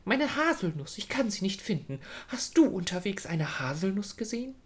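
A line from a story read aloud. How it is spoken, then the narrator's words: Said very excitedly. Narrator (German): sagte ganz aufgeregt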